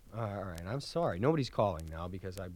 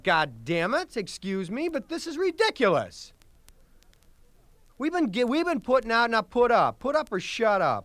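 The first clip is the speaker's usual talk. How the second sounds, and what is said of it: Angry yelling. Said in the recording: “I blew up ... I'm sorry for yelling.”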